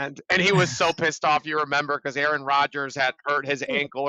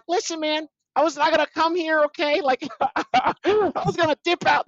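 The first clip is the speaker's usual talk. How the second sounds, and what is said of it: Nasal impression of another person. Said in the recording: “my Gary V impersonation. It sounds very nasally.”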